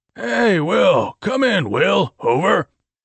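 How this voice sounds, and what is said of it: Raspy character voice. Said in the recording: “The guard's raspy voice rang out.”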